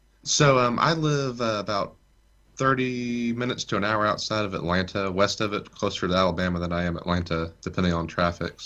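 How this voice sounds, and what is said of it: Noticeable regional American accent. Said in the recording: “Lovely accent.”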